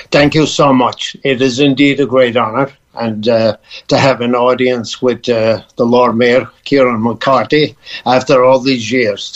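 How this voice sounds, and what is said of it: Irish Cork accent. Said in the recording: “You haven't lost the accent”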